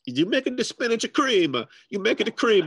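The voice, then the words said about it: Heavy put-on Italian accent. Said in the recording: “speaking English in a heavy Italian accent ... like a Luigi cartoon”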